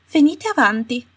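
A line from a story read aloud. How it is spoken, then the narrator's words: Coaxing, persuasive voice. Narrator (Italian): disse la Umbridge con voce suadente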